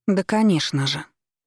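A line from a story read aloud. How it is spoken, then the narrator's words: Composed mutter. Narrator (Russian): пробормотала, взяв себя в руки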